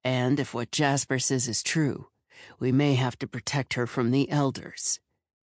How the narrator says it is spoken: Tor growled

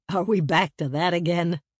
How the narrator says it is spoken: Isaiah chuckled

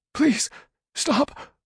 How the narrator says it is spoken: Homer begged in a cracking voice

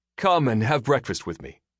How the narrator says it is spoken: he said

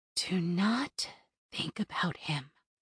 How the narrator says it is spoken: she whispered

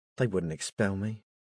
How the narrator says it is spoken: Cameron muttered

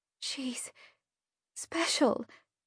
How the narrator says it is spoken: she said softly

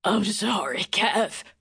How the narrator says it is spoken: he croaked

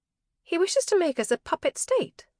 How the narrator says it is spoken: Kit said sharply

